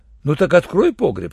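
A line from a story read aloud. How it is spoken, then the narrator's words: Plain. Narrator (Russian): сказал врач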